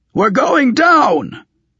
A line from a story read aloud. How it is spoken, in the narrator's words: one of the Torques shouted in his barbaric eastern gabble